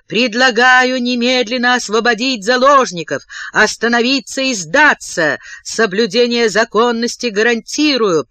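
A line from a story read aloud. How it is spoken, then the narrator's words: Roared through megaphone. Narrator (Russian): проревело сверху через мегафон уже по-русски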